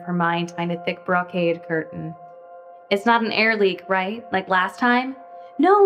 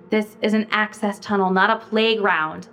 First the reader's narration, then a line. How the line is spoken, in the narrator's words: Leah snapped